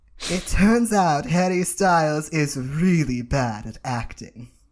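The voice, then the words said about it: Put-on accent. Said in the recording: “This surely is an accent you're doing.”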